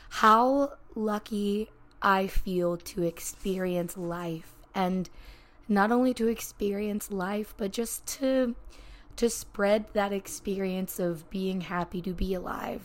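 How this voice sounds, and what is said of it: Choppy, emotional, near-tearful voice. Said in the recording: “my voice is still pretty choppy, but I am feeling a little bit emotional ... I'm already like tearing up”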